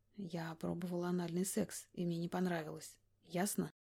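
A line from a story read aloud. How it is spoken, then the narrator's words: Very quiet, convincing. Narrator (Russian): Мой голос звучал крайне тихо, но убедительно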